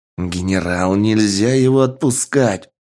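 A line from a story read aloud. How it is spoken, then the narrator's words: Growling. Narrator (Russian): зарычал гражданский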